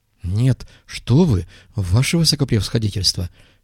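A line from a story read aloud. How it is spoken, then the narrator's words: Frightened blurting. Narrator (Russian): испуганно выпалил Юсеф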